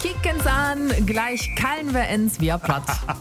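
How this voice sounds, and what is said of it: Attempted Bergisch regional dialect. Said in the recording (German): “versucht sich jetzt auch in bergischer Mundart”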